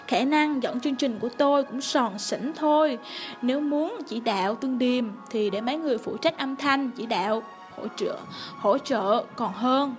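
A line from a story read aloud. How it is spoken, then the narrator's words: Terrified. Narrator (Vietnamese): hoảng sợ, sợ hãi không chịu nổi, nói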